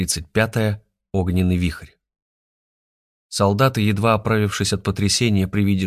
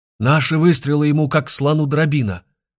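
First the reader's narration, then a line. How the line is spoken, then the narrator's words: Yelling close by. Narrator (Russian): завопил где-то совсем рядом Петр Фоменко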